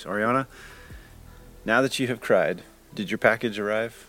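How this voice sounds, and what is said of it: Stern fatherly voice. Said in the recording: “I take my dad voice.”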